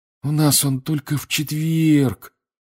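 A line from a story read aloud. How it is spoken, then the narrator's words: Disappointed sigh. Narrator (Russian): разочарованно вздохнул он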